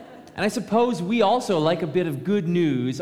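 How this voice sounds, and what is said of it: Usual voice. Nothing is said of it.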